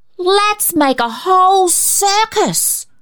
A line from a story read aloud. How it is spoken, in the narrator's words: Cecil proposed wildly